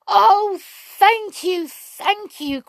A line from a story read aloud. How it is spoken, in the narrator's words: cried the sprites in great delight